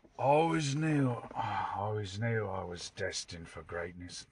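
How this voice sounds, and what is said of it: Tom Hardy's voice as Bronson. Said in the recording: “Tom Hardy's one of my favies. I'm trying to do his voice from Bronson.”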